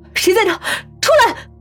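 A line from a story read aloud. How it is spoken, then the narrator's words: Loud shout. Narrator (Chinese): 大声喊道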